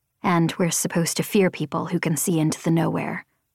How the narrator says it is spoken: I whispered

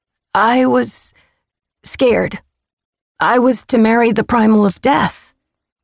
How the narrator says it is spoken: I said, my voice hoarse

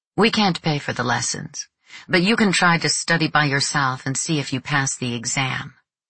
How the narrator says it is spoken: She said in dialect, in her usual harsh tone

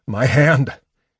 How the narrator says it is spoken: Caramon rocked back and forth, sobbing

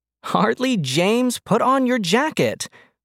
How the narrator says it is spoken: Mom shouted at him from the kitchen window, but there was laughter in her voice

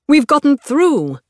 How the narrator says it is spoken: Rake shouts

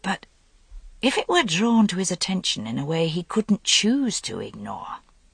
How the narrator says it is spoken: Gwydion said quietly, considering

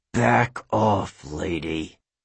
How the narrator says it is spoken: The lion growled like

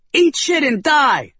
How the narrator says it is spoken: Sophie shouted

